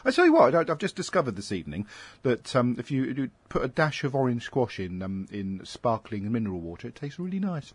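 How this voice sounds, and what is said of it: Voice with a sore throat. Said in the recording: “that's hurting my throat. I've got a sore throat”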